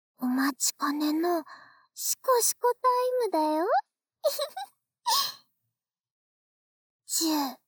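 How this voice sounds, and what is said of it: Whispering close to the ear. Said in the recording (Japanese): “耳元で…ささやくね”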